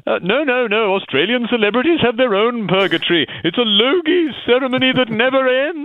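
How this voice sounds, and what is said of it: Ghost character voice, shifting accent. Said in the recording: “your shifting accent”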